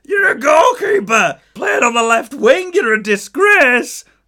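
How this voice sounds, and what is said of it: Exaggerated Dorset-sounding accent, shouted. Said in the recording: “I didn't know Chris Waddle was from Dorset. ... let's just go back to the accent. ... That was incredible.”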